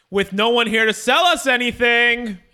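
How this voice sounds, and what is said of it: Slightly raised, louder voice. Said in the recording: “I'm going to raise my voice a little bit”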